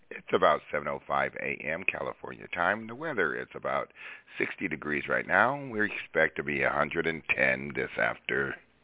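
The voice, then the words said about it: Voice in poor shape. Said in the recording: “As you can tell, my voice is not good. It's early in the morning.”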